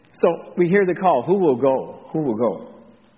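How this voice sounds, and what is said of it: Slight Texas drawl. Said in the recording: “there's a little Texas drawl there”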